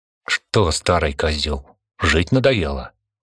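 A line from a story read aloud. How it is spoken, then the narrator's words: Angry question. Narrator (Russian): зло спросил Константин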